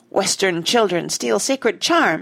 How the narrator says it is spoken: he cried

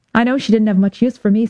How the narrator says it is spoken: said Kate

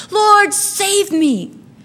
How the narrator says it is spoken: And he cried out immediately

